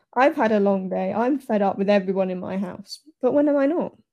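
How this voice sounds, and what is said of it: Annoyed tone of voice. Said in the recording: “You can hear the annoyance in my voice.”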